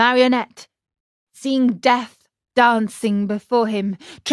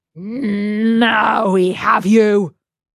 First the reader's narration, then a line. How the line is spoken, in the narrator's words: the same two horrible voices growled threateningly